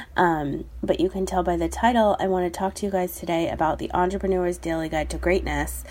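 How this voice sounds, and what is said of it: Congested voice from a cold. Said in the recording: “sorry about my voice, but I have had a little cold. Actually, I had a kind of a bad cold”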